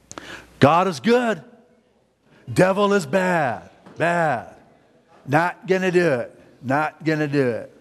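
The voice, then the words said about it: George W. Bush impression. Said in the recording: “That was my George W. Bush impersonation.”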